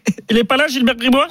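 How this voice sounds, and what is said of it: Imitation of Gilbert imitating a caller. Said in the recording (French): “T'as imité Gilbert qui imite le mec qui appelle Gilbert. Mais c'est pas mal, ça passe.”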